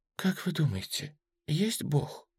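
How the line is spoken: Creature's quiet question. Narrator (Russian): тихо спросила нелюдь

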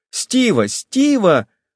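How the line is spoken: Flustered shout. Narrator (Russian): закричала Долли, покраснев

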